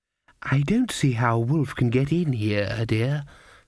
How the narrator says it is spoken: said the grandmother kindly

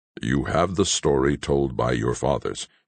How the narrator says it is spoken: returned the other, coldly

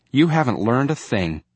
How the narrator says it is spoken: Roy said irritably

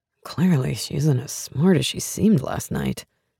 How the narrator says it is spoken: he mutters to himself

